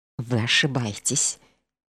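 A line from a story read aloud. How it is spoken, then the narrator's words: Quiet answer. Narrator (Russian): тихо ответил он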